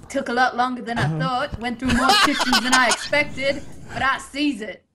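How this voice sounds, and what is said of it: Slight Australian accent. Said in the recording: “There was like a tinge of Oz there.”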